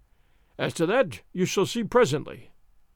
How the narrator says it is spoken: he said

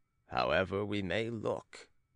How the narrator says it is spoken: said Manuel gravely in Portuguese to his companion

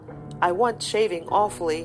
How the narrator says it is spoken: he said

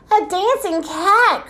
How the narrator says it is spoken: cried King Oswald

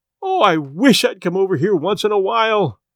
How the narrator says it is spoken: she cried

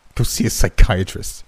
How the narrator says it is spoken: I scoffed

